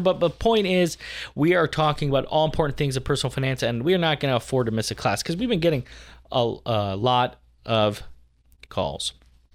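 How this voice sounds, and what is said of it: Voice deeper than normal, unwell. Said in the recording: “I am a little under the weather here. If you can't tell by my voice, it's a bit deeper than normal.”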